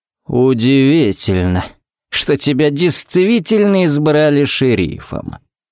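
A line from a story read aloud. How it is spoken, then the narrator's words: Drawled. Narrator (Russian): протянул он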